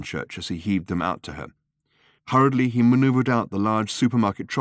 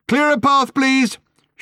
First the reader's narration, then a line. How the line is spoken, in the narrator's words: shouted Ford again